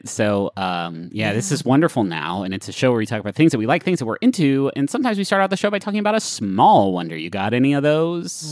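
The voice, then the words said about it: Radio announcer voice. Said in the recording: “You really tapped into that radio. Radio voice.”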